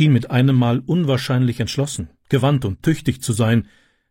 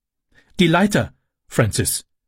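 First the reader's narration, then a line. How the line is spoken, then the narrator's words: Calling out. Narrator (German): rief sie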